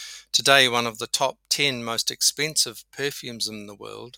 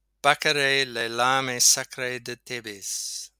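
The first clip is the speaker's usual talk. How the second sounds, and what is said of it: Attempted French pronunciation. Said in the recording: “this is a French perfume, so forgive my accent”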